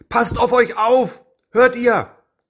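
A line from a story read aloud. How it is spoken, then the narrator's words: Father's worried call. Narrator (German): Floffs Vater rief dann besorgt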